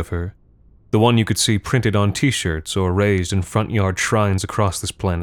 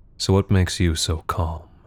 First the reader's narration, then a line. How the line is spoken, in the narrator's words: Kaizen murmured